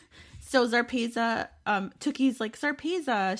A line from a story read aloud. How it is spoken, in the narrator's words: she blurts out